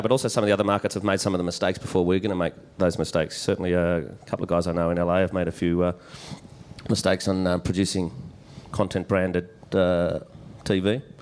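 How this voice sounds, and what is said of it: Australian accent. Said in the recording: “the little token Aussie on the panel ... we had to have one Australian accent”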